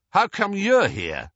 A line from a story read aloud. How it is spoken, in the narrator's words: he said, much too loudly